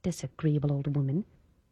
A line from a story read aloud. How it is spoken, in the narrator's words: Under her breath, Esther muttered